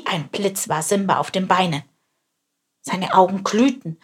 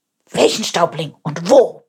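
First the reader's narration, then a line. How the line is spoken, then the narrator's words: Roared. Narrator (German): brüllte er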